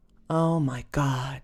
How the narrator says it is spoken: she sighed

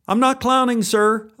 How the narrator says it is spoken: yelled back

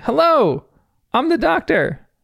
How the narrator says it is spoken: Bluey says quite loudly

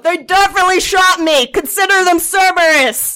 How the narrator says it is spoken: the Krogan yells out

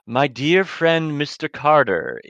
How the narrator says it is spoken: he intones in a rich voice

